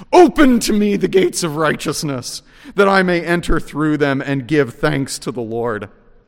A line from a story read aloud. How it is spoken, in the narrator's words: Jesus, that horrible night, with confidence shouts